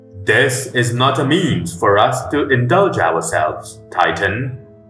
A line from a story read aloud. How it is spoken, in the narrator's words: he thundered